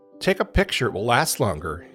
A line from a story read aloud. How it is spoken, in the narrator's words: laughed